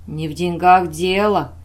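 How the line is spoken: Cold. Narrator (Russian): холодно произнес вахмистр

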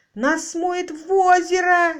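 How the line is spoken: Wild terrified scream. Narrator (Russian): дико заорал в страхе Роджер

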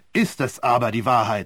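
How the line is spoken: Angry question. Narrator (German): fragte Sir Wilfried wütend

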